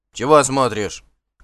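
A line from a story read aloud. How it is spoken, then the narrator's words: Rude curt remark. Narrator (Russian): грубо бросил Кар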